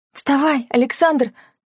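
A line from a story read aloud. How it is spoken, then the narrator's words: Barely audible wheeze. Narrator (Russian): Он едва просипел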